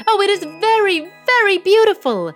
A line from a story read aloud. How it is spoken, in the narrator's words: they all exclaimed with his majesty